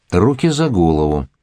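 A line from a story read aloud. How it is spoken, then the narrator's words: Cold. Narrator (Russian): сказал он холодно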